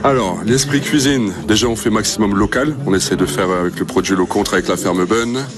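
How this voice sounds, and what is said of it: Slight Flemish regional French accent. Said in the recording (French): “Petit accent des Flandres. ... Un chou peu, petit accent des Flandres.”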